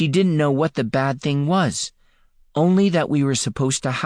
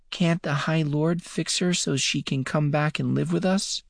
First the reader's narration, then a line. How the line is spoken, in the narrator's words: Michael asked in a small voice